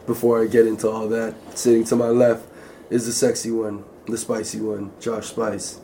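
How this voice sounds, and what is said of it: Hoarse, worn-out voice. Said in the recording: “My voice is kind of gone. It's been a long day.”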